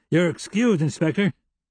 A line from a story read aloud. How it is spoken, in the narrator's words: Sandy called out